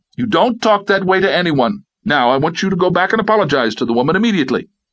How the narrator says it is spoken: Julia shouted

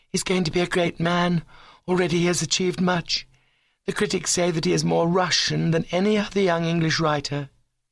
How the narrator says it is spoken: replied Adeline, blushing faintly

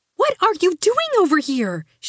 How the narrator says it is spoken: cried

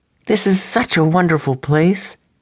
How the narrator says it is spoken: exclaimed Rachelle

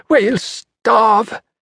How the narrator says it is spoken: begged

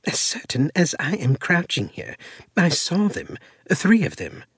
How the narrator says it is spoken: Elena responded earnestly

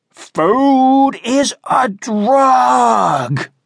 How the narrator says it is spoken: thundered

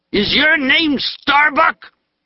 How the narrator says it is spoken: He shouted the question, spraying Starbuck's face with spittle laced with drink and tobacco

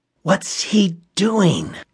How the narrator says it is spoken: Reggie whispered

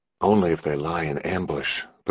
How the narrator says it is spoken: Patrolman Trong replied equally quietly

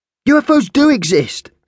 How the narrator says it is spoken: snapped the boy

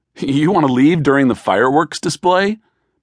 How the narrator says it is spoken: Benjamin laughed

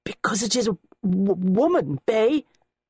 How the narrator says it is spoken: the headman stutters

